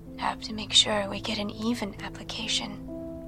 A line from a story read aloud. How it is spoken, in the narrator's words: whispered